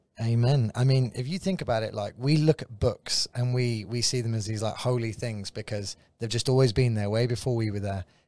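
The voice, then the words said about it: English accent. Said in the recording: “He has that cool English accent.”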